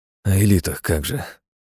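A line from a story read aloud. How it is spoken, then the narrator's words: Skeptical snort. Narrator (Russian): хмыкнул Хасид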